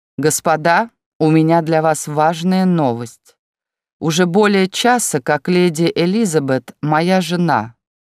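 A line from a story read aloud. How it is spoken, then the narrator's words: Loud announcement. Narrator (Russian): громко объявил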